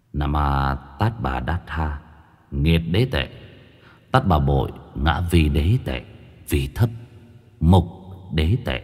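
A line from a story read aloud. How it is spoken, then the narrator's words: Soft chanting. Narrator (Vietnamese): Tâm Trúc khẽ niệm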